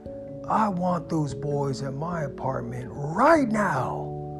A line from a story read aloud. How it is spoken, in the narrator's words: yell at her and say